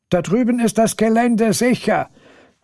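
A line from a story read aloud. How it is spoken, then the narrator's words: Calling out. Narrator (German): ruft Martin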